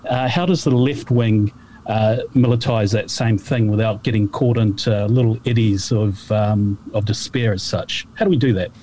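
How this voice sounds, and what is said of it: Speaks with a noticeable accent. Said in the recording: “That's my accent.”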